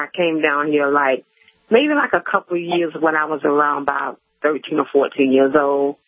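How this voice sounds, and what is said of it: Southern US Georgia-Florida accent. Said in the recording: “You have a Georgia-Florida accent ... your Florida-Georgia accent”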